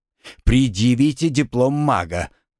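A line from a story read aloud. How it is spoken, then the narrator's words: Hissing through teeth. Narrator (Russian): прошипел он сквозь зубы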